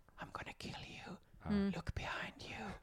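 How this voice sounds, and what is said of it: Whispered menacing voice. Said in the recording (Swedish): “en seriemördare på film som ringer upp någon 90% viskar ju”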